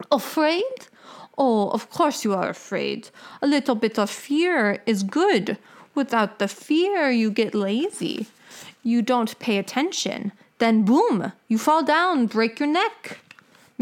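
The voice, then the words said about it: Old woman voice, foreign accent. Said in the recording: “Katrina's voice changed, and she spoke like a little old woman with a foreign accent.”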